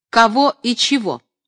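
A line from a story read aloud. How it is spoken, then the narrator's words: Sharp retort. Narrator (Russian): резко возразила была Любская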